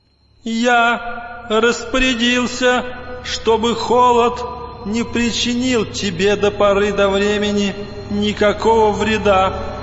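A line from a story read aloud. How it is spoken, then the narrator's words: Thin ringing voice. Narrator (Russian): ответил кто-то тоненьким, звонким голосом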